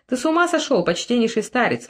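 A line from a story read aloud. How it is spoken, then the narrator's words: Exclaimed. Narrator (Russian): воскликнул он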